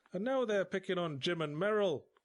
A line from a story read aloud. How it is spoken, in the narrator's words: cried Mrs